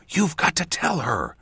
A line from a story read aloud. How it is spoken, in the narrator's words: Jas pressed in a whisper